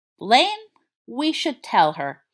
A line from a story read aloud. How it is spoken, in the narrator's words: he said slowly